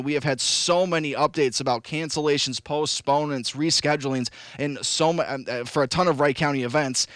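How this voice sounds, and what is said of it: Raspy, partly lost voice. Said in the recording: “As you can kind of hear a little bit, my voice is kind of raspy. I kind of lost it yesterday... I've just lost my voice a little bit... I don't have my regular booming radio voice right now. It's kind of raspy”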